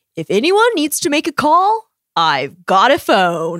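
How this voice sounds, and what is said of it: Valley girl accent. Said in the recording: “The little accent, nailed it. ... Valley girl.”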